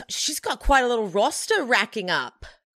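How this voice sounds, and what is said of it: Put-on Australian accent, well done. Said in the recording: “I really can't do a, an Australian accent usually... I nailed it”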